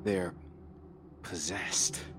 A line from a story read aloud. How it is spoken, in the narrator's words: I muttered